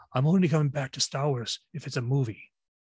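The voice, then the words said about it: Irish-accented impression of another person. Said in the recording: “that's an Irish accent... your Liam Neeson impression is spot on”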